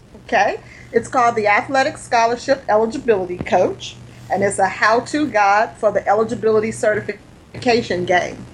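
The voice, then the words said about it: Southern American accent. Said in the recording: “I hear that southern accent.”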